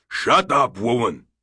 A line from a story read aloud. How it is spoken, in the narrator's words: Barak roared in a tone she had never heard in over 20 years of marriage